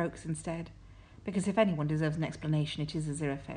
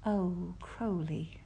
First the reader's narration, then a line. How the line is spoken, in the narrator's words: Aziraphale says softly